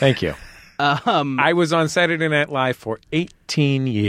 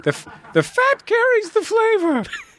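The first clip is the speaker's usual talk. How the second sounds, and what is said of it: Imitates another person's voice. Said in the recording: “my famous Julia Child impression ... It was really good.”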